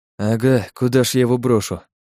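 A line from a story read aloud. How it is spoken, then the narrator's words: Mutter under breath. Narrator (Russian): пробурчал себе под нос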